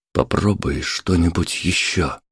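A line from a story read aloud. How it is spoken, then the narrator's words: Whispered. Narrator (Russian): шепнул Александр Леша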